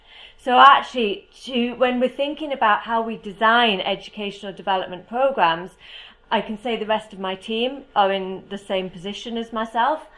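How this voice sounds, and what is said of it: British accent. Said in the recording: “As you can probably tell from my accent, I am from the UK.”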